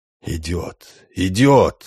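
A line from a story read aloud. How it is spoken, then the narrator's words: Hoarse male voice. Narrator (Russian): хриплым мужским голосом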